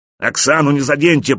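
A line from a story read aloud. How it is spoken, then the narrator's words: Roaring elephant. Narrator (Russian): проревел слон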